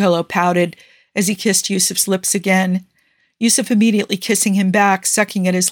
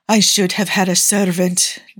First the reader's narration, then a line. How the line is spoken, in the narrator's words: Niccolo muttered, trailed off